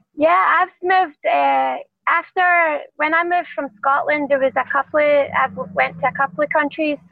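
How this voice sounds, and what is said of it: Scottish accent. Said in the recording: “that's not a Vegas accent... I'm saying you have an accent, but it's not a Vegas... I came from via Scotland. Scotland's my home.”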